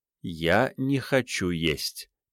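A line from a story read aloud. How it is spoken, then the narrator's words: Quiet, measured, very calm. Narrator (Russian): тихо, размеренно и очень спокойно произнесла она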